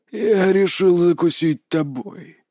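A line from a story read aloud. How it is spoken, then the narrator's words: Old man growling. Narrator (Russian): прорычал старик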